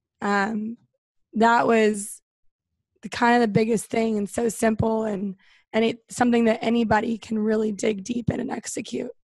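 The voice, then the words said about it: Hoarse, nearly lost voice. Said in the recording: “I was the woo girl, obviously, this weekend. That's why my voice is gone.”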